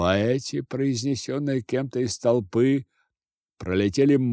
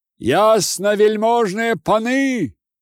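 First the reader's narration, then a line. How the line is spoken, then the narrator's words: Frightened shouting. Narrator (Russian): кричал один высокий и длинный, как палка, жид, исковерканную страхом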